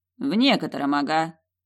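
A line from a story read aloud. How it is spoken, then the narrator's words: Snort. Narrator (Russian): фыркнул Петери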